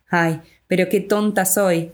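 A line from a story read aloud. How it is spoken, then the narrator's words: Sudden alarmed exclamation. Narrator (Spanish): exclama mi amiga, repentinamente alerta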